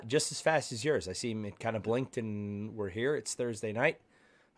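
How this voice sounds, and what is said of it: Slightly hoarse, sick-sounding voice. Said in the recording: “I was sick You could still hear it in my voice a little bit. ... A little bit.”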